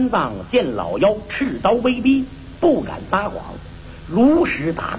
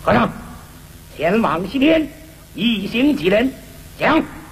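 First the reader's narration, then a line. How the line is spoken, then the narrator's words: Stern, harsh question. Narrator (Chinese): 厉声问道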